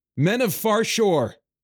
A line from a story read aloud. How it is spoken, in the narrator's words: he shouted